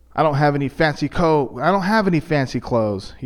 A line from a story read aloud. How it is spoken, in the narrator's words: he yelled downstairs